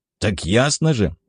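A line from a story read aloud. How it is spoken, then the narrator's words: Wry snort. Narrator (Russian): опер хмыкнул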